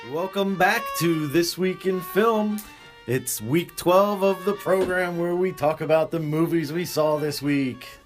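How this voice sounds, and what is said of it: Playful announcer-style radio voice. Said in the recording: “That's my fun radio voice.”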